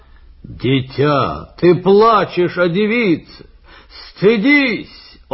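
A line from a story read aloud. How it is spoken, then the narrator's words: Shout. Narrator (Russian): закричал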